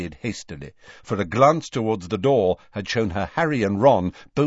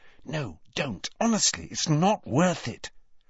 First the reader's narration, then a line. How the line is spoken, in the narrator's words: Hermione whispered